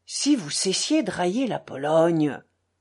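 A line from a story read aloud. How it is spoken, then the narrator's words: Tipsy grumble. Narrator (French): bougonna Kalganov, également gris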